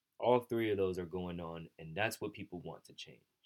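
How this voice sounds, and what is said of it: Frustrated tone of voice. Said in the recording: “hear the frustration in my voice”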